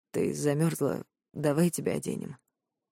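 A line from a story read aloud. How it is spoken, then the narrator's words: Hoarse. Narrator (Russian): говорит хрипло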